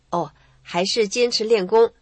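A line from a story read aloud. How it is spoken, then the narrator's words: Embarrassed. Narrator (Chinese): 她不好意思说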